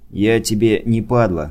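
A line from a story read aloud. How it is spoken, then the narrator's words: Calm. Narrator (Russian): спокойно сказал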